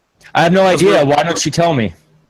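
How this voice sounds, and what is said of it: Yelling. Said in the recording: “You're yelling.”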